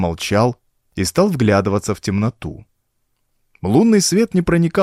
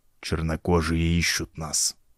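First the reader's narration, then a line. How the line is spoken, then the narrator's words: Quiet. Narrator (Russian): тихо сказал Вулми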